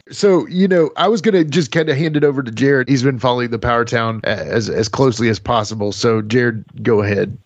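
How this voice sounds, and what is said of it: Appalachian accent. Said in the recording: “Appalachian accent”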